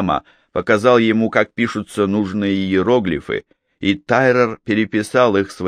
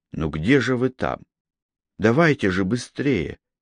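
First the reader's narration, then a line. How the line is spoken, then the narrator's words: Muttering. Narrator (Russian): бормотал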